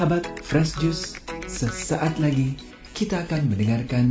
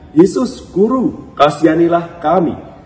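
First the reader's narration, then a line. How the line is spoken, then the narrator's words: Shout. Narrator (Indonesian): berteriak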